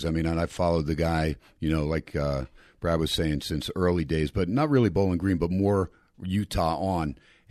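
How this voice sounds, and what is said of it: Classic radio voice. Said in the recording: “you've got that classic radio voice. ... he's got that radio voice”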